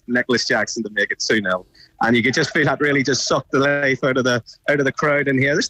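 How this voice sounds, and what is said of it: Northern Irish Belfast accent. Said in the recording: “I love your accent. Where are you from? ... I'm from Belfast ... I don't think I've lost it too much”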